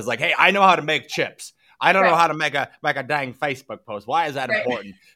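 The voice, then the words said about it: Poor impression of machine shop owner. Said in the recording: “machine shop owners ... That was a horrible impression.”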